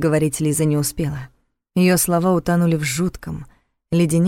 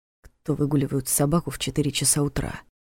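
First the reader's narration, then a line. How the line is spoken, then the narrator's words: Quiet question. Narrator (Russian): тихо спросил он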